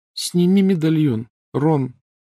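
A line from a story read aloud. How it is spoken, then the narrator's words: Unusually thin pleading voice. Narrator (Russian): непривычно тонким голосом попросила Гермиона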